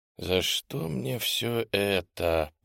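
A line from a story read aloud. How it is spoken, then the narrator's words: Whispered, head down. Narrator (Russian): прошептал я, не поднимая головы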